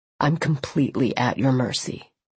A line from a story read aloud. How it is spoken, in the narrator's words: he said softly